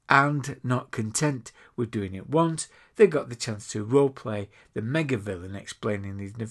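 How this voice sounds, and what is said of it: Usual voice. Nothing is said of it.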